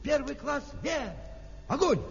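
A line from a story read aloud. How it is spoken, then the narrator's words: Shouting at full strength. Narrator (Russian): закричал, что было сил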